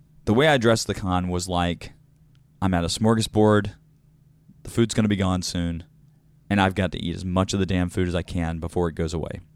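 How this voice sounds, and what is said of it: Unusually deep, worn voice. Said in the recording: “this will explain why my voice is deep right now.”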